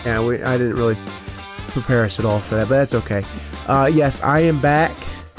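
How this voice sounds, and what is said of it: Weakened sick voice. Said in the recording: “I'm also going to be coughing through half of this, and then obviously my voice isn't still there”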